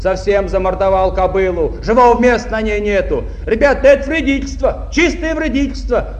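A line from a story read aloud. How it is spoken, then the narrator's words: Heated young man shouting. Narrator (Russian): запальчиво закричал кто-то из молодых шахтеров-комсомольцев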